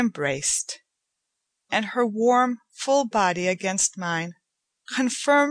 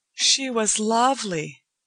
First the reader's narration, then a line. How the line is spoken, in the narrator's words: Joanna said